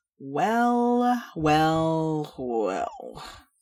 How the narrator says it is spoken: slurred a voice from the shadows

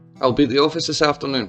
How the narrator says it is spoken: she said

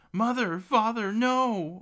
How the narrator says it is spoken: A wailing scream

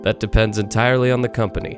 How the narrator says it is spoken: Podius responded with a hearty chuckle

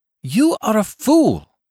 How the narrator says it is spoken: I exclaimed

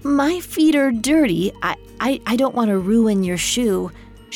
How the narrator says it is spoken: she stammered

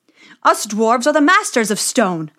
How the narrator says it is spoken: they cried

